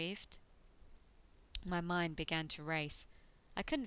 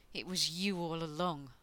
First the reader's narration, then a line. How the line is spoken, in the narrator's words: I growled at him